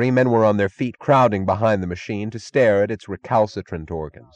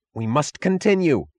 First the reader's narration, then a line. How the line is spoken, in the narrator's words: cried Taggart